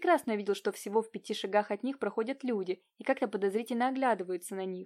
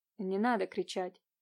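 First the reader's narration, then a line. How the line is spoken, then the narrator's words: Muffled remark. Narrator (Russian): глухо заметил Иван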